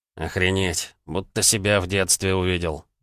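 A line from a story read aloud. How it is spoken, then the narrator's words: Muttered. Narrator (Russian): пробормотал Вячеслав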